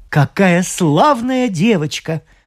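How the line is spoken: Excited exclamation. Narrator (Russian): взволнованно воскликнул врач

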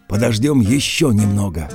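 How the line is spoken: Plain. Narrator (Russian): сказала Алли Гретта

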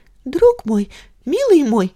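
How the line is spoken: Babbling. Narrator (Russian): залепетала она

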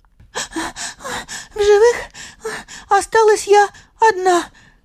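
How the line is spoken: Breathless faint babble, mouse. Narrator (Russian): задыхаясь, еле пролепетала уцелевшая мышь

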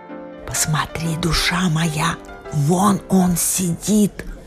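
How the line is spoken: Anxious whisper. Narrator (Russian): С беспокойством прошептала мистерис Малдертон мистеру Малдертону

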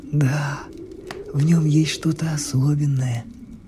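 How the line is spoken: Thoughtful whisper. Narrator (Russian): шептал отец, задумчиво

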